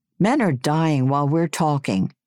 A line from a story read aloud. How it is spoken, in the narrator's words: In desperation, Chick yelled